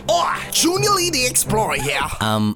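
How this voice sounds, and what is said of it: Poor put-on accent. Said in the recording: “That accent is not good at all.”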